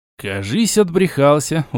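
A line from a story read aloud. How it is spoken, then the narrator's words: Tired reply. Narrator (Russian): устало ответил я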